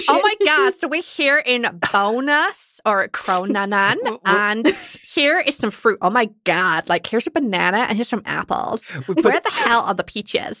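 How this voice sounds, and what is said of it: Put-on American accent. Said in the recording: “I'll do it in an American accent when there's a bunch of tourists around”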